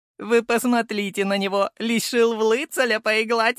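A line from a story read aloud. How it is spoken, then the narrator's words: Showy laughter, red-haired man. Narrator (Russian): Напоказ расхохотался рыжий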